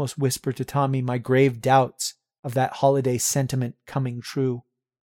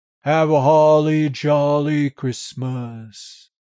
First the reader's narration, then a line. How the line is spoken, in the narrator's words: John sings merrily in his dry, grim voice